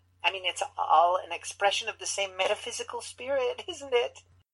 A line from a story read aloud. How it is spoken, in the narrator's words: She giggled